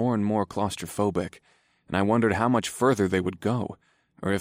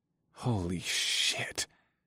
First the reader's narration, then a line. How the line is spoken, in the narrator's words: I muttered